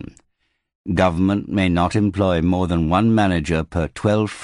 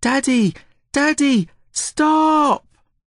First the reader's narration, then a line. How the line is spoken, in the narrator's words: Olivia was shouting